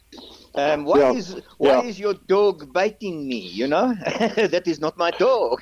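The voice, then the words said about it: Poor imitation French accent. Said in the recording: “Your French accent is not good.”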